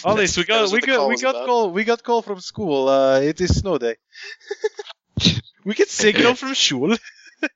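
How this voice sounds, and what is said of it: Put-on Russian accent. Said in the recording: “I am Russian now. ... I'll just do all the accents”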